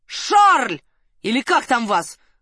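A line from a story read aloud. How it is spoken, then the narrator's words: Booming bass shout. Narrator (Russian): зычным генеральским басом заорал Соболев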